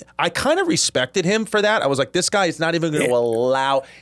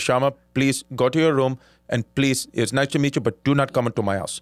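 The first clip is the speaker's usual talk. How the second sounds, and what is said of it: Put-on Indian accent. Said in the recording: “great Indian accent ... It sounded very realistic”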